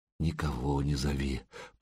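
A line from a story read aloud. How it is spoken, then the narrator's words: Muffled whisper. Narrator (Russian): прошептала она в пушистую макушку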